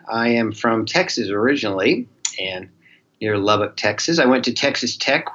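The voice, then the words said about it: Slight Southern Texan accent. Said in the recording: “You may pick up a little bit of a Southern accent.”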